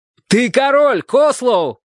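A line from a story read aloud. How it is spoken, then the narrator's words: Shout. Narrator (Russian): крикнул Джим Ладью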